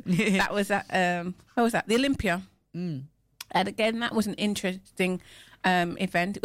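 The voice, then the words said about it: English Midlands accent. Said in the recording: “My Midland accent.”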